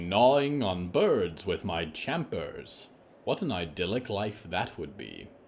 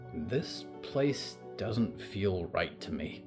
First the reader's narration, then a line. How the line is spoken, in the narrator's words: Percy whispered to Diggory